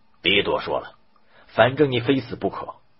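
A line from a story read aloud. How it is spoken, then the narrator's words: Fearful and angry. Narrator (Chinese): 渔翁又怕又怒的说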